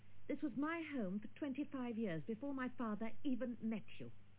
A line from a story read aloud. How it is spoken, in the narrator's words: Dale said fiercely